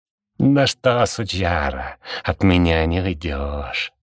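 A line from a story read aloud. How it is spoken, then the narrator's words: Growled right at the ear. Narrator (Russian): прорычал кто-то над самым ухом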